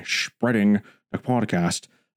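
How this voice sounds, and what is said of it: Bad Scottish-accented actor impression. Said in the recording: “I sound like Sean Connery ... terrible Sean Connery impression”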